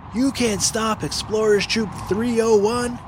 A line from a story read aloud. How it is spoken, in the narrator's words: yelled Finn